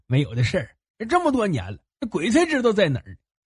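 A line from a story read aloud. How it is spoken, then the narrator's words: Ingratiating, smiling. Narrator (Chinese): 莫崇德陪着笑脸说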